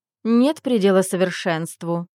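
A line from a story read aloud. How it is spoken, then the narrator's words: Haughty, through teeth. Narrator (Russian): вздернув нос, процедила она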